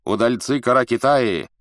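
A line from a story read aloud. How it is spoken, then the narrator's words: Shouting to a group. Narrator (Russian): крикнул им Джилаляддин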